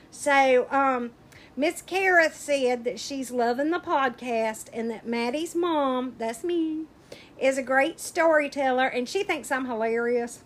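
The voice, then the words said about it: Speaks with a regional accent. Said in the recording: “you can't tell because of my accent.”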